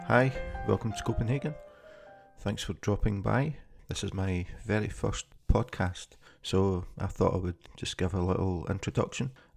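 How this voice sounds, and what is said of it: Scottish accent. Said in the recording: “this is not a Danish accent. I'm originally from Scotland”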